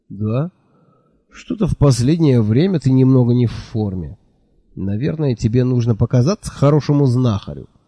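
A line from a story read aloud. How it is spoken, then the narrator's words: Sympathetic sigh. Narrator (Russian): сочувственно вздохнул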